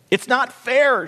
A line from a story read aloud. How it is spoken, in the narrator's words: shrieked Bean Plant, gone wondrously skinny and shivering